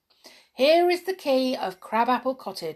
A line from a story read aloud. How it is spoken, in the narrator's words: he said kindly